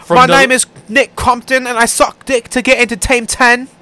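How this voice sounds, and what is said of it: Put-on accent. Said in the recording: “No, you gotta do the actual accent, man.”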